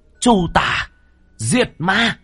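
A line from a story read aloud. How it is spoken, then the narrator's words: Shrill shout. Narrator (Vietnamese): lam điểu hét lên một tiếng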